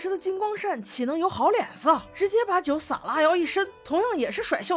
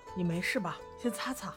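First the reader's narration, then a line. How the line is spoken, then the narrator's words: Gentle. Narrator (Chinese): 西尘哥哥温柔道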